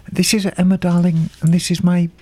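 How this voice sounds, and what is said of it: Mock British newsreader voice. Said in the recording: “BBC World Service voice”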